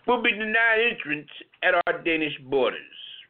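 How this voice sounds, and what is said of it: Imitated Danish prime minister's accent. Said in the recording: “this is the accent that he has”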